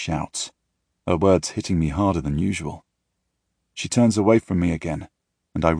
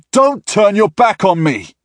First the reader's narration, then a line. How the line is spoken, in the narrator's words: I yell at her